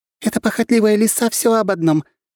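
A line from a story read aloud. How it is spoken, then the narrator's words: Fairy giggling. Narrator (Russian): хихикала полутораметровая фея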